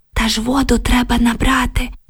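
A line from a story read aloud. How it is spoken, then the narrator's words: Whispered reply. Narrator (Ukrainian): прошепотіла Оксана у відповідь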